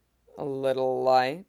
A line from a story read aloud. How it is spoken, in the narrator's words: Pierre asked, the vowels of her shiriwook rumbling and rounded